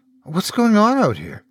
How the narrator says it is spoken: the young woman asked, her tone one of timid confusion

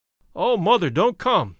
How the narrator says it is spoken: cried

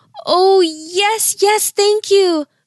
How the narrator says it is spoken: Mia cried

